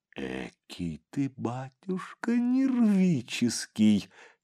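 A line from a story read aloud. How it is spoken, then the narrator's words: Giggling. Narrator (Russian): и хихикнула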